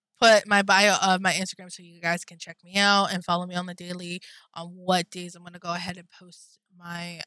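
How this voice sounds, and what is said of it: Breathless voice, cracking. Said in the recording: “out of breath right now ... My voice is starting to crack up”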